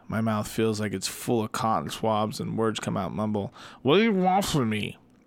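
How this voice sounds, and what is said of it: Usual voice. Nothing is said of it.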